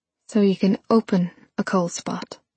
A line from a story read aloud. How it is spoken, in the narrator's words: said